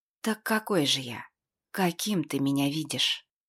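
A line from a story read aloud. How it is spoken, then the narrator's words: Sudden hoarse exhale. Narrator (Russian): Она внезапно хрипло выдохнула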